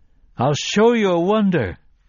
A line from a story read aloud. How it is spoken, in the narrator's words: he cried at them